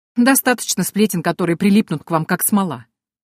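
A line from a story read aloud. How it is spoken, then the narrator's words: Snorting. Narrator (Russian): хмыкнул слуга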